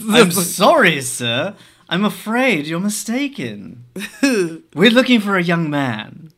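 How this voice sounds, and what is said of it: Nasal Tim Curry impression. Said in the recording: “What's your favorite Tim Curry moment in this? ... the accent ... Something about the nasally ... now I just sound like South African”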